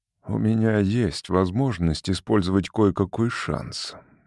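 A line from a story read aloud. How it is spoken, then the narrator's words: Soft. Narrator (Russian): мягко сказал Валанд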